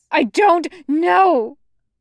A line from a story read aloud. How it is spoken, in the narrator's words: Zhang Cheng screams